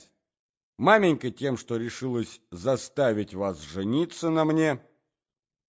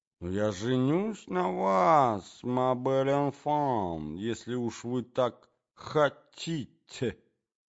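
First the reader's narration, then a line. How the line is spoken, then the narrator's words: Muttering. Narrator (Russian): бормотал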